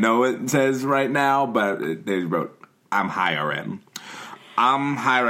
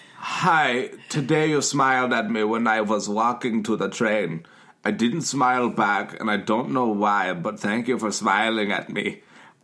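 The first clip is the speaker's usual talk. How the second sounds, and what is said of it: Put-on German accent. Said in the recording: “I'm going to do it with the German accent, I guess.”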